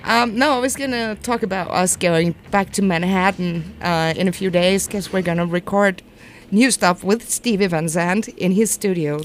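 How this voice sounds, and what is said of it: Beautiful accent. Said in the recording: “Anything in that beautiful accent is a great story.”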